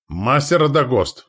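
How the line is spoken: Shout. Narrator (Russian): крикнул я

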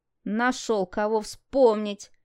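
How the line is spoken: Snorted. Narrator (Russian): фыркнул Дима

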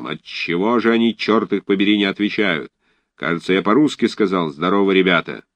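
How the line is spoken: Angry exclamation, terrible voice. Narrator (Russian): совсем уже рассерженный император воскликнул своим ужасным голосом

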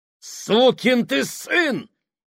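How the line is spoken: Roaring. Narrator (Russian): взревел Фабрини

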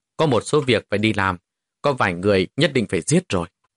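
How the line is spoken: Cold, slow speech. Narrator (Vietnamese): vẻ mặt hiện ra sự lạnh lùng, từ từ nhìn về phía tây mà nói

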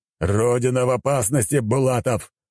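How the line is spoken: Shouting. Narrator (Russian): прокричал император

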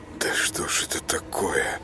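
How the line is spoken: Quiet bewildered curse. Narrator (Russian): выругался юноша тихо, ничего не понимая

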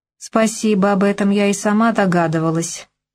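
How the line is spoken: Sarcastic, through gritted teeth. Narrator (Russian): язвительно процедила я

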